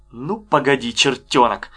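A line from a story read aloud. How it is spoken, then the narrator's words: Angry. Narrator (Russian): сердито сказал Беденко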